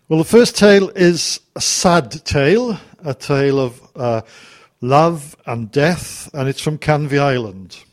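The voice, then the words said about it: Slight Welsh accent. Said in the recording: “People tell me I haven't lost my accent ... I can catch a little bit of a Welsh accent there”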